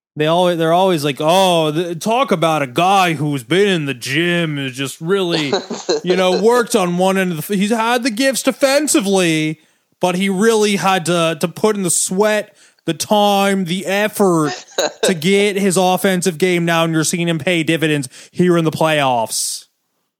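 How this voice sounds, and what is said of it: Generic sports broadcaster, Greg Anthony impression. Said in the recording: “my generic broadcast impression of every who did the broadcasting this series ... my white man's version of Greg Anthony”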